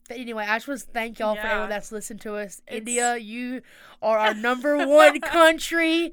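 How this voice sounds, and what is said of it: Southern US accent. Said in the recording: “southern accent”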